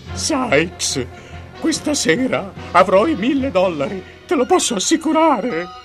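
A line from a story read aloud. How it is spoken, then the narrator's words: Trembling exclamation. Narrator (Italian): esclama Fagin tremante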